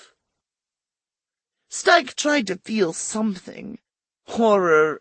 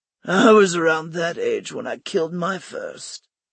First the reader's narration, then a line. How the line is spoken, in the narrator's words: Stike grunted